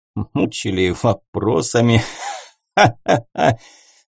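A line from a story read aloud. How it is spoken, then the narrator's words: Count's light laugh. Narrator (Russian): легко рассмеялся граф, теряя свою серьезность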